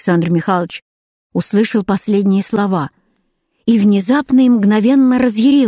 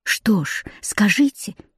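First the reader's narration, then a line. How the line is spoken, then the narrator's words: Eager approving whisper. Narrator (Russian): одобрительно и горячо шепнула Саша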